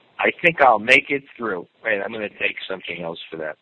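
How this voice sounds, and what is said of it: Hoarse, strained voice. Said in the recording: “my throat is a little clogged up... It seems like I'm losing my voice a little bit.”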